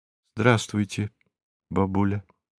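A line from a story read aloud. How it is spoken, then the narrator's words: Sad, smiling. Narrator (Russian): грустно улыбнулась Ирина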